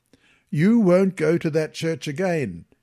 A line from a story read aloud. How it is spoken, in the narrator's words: he yelled